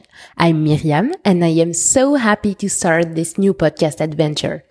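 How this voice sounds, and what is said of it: French accent. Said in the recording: “As you can hear, I am French”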